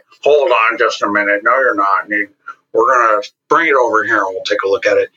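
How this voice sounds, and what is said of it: Imitates another person's voice. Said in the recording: “That was my best John Reed impression.”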